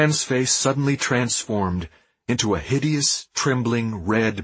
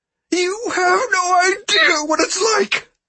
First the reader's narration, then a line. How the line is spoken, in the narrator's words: screamed, his voice cracking